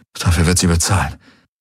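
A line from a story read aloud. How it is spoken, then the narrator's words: Muttering to himself. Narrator (German): murmelte Garlen vor sich hin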